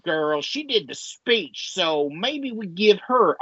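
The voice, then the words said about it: Silly put-on accent. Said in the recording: “I'm giving a stupid accent”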